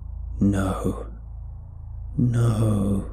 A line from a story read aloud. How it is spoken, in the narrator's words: it hissed